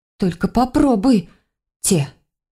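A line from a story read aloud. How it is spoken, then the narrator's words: Breathless exhale. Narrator (Russian): Выдохнула я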